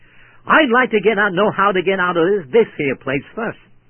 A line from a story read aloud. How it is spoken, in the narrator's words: she quickly retorted to me